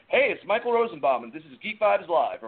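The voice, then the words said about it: Mock announcer voice. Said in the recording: “That was my announcer voice, if you couldn't tell.”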